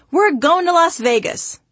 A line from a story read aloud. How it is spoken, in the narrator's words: my father would happily announce